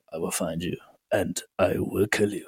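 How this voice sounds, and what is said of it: Bad Liam Neeson impression. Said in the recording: “as Liam Neeson said ... I'm so bad at that fucking impression.”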